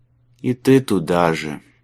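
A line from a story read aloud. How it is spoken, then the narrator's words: Gloomy. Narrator (Russian): мрачно откомментировал Майлз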